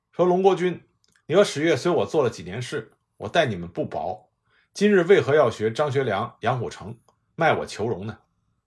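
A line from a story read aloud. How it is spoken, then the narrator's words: Furious stern scolding. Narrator (Chinese): 郑洞国火冒三丈，厉声骂道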